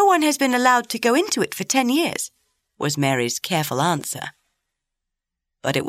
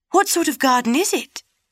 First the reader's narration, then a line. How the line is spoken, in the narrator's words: Colin persisted eagerly